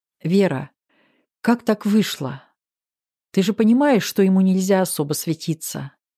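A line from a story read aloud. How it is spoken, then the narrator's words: Soft mother's voice. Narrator (Russian): мягко проговорила мама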